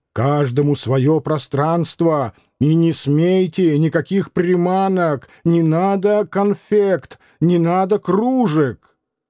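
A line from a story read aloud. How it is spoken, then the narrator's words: Shouting. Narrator (Russian): Диомидов кричал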